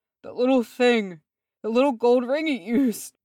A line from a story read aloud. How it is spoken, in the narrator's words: he wheezed